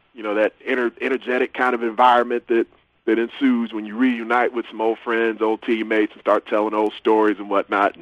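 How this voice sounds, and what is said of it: Strained, worn-out voice. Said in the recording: “my voice is definitely still struggling a little bit from the weekend”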